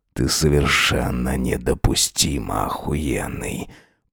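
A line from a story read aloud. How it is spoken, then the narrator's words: Hoarse rasp. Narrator (Russian): Прохрипел он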